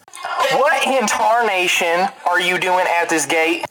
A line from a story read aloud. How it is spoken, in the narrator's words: someone from the top yells down at Icaril and says